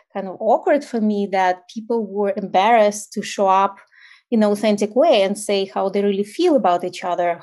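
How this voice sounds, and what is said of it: Ukrainian accent. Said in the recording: “I, am originally from Ukraine, so obviously I still have an accent ... my accent is still there”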